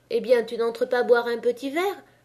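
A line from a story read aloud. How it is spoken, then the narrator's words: Cheerful question. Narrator (French): lui demanda la mouquette gaiement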